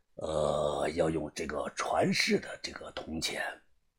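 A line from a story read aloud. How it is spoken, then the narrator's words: Old, hoarse voice. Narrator (Chinese): 宋教授声音苍老沙哑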